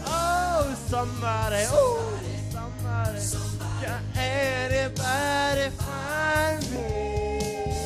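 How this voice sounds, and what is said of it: Hoarse, strained singing voice. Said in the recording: “my voice is shot”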